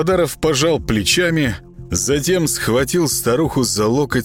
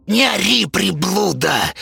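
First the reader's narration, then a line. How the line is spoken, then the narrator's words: Hiss. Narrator (Russian): прошипела Зинаида Петровна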